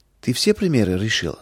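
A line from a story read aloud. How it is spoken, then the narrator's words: Plain. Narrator (Russian): спросил Самуил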